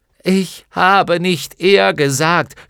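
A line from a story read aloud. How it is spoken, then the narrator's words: Shouting, half angry, half laughing. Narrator (German): schrie Bastian halb ärgerlich, halb lachend hinauf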